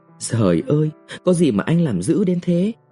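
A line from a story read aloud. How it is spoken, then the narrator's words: Moaning question. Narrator (Vietnamese): Quỳnh rên rỉ hỏi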